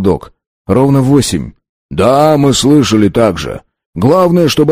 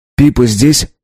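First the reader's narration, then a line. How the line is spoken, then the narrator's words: Plain. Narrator (Russian): спросил я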